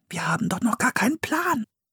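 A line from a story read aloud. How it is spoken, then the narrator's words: Whispering. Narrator (German): flüsterte Philipp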